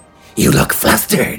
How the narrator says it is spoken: he hissed

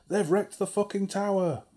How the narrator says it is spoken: the sergeant screamed

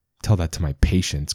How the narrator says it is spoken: Chris muttered

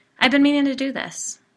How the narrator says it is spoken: replied

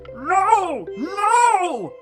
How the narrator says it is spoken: shouted

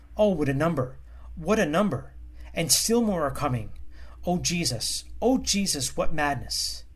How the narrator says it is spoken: The servant of God was stupefied at the sight and exclaimed

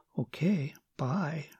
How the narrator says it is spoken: she said softly, as if it were a secret

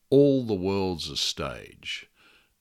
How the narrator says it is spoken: He just sighed, said

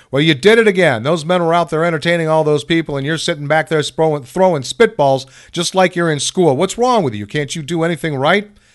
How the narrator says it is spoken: I could hear him yelling

